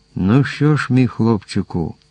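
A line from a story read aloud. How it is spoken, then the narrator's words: Captain's hesitant deep sigh. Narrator (Ukrainian): Наважився врешті-решт капітан, глибоко зітхнувши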